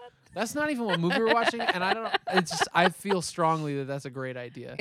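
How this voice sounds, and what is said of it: Usual voice. Nothing is said of it.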